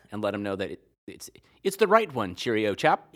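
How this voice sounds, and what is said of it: Put-on British accent. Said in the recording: “I'm going to do it with a British accent”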